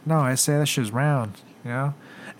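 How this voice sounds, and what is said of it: Put-on Mexican accent impression. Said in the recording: “that impression. I made myself sound like such a Mexican.”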